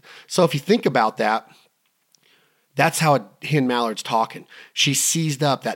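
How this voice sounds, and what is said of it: Usual voice. Nothing is said of it.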